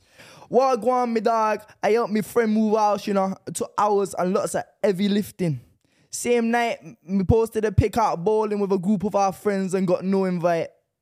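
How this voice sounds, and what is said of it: Put-on Jamaican accent. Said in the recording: “do a Jamaican accent ... without the accent”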